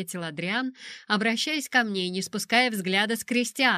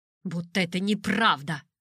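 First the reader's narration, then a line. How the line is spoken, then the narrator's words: Grumbling. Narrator (Russian): проворчал Кристиан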